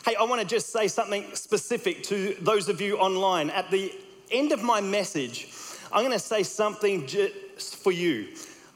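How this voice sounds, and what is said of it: Australian accent. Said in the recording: “you're picking up my Australian accent”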